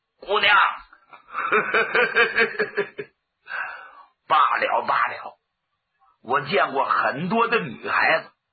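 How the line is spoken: Ingratiating smile. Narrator (Chinese): 满面陪笑

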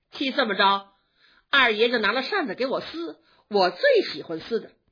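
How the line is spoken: Laughing. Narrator (Chinese): 晴雯听了笑着说

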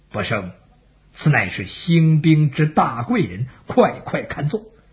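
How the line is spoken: Low voice. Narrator (Chinese): 邓禹 对刘隐低声说

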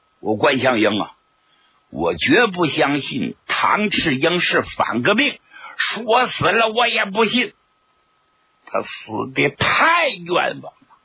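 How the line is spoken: Indignant yelling. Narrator (Chinese): 贺龙实在气不过呀，在屋里大喊大叫

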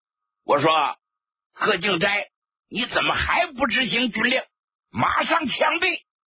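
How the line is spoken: Loud shouted command. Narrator (Chinese): 贺龙在土台上高声喊喝

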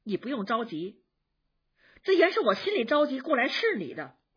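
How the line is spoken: Smiling, gently coaxing. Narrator (Chinese): 紫娟…又笑着解劝说

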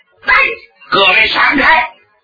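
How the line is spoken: Loud roar. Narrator (Chinese): 罗成大吼一声

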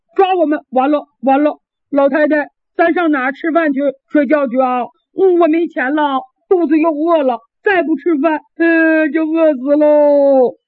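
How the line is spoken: Crying. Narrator (Chinese): 康廷哭了

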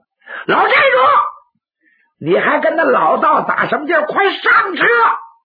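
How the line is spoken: Shout. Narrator (Chinese): 徐芳喊了一声

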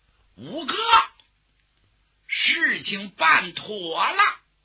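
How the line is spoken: Relieved loud shout. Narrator (Chinese): 侯君集这才放心呐，高声喊喝

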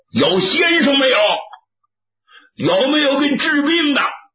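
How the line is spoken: Simpleton shouting. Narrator (Chinese): 傻子 就喊

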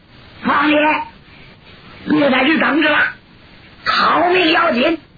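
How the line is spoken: Shouting mid-fight. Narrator (Chinese): 一边打一边扭回头来喊

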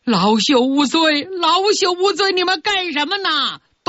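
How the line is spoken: Yelling at full voice. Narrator (Chinese): 铁算盘死命挣扎，扯着嗓子喊

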